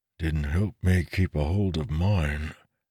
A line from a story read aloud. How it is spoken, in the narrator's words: Talon mumbled